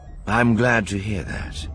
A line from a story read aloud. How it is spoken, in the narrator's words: Thrawn said, perhaps a bit too dryly